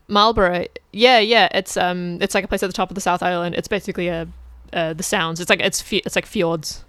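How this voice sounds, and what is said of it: New Zealand accent. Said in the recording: “the lovely Kiwi accent”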